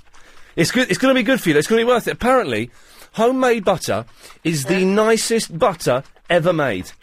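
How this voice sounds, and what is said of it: Out of breath, panting speech. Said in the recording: “I'm all out of breath.”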